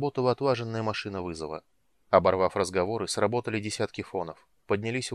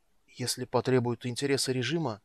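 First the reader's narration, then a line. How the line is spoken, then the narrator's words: Trembling voice. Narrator (Russian): начал дрожащим голосом психолог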